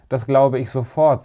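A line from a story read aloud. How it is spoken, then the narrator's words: Said laughing. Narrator (German): sagte Herr Sagenschneider und lachte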